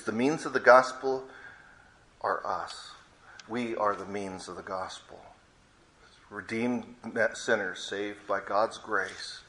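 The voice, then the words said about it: Non-local foreign accent. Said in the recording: “this strange guy with an accent not from around here”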